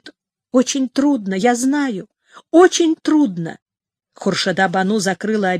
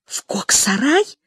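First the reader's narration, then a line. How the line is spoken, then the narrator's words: Voice dropping to whisper. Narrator (Russian): голос Хуршиды снизился до шепота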